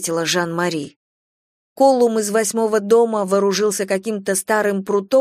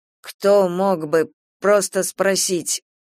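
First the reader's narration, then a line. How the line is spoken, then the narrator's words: Mumbling. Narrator (Russian): промямлил Колум из восьмого дома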